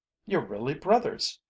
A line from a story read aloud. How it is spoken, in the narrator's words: she cried